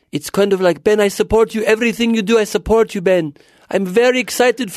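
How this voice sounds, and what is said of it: Imitated Israeli-accented mother's voice. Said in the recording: “She's Israeli. ... What is her accent? How does it sound? ... I don't really do my mom well”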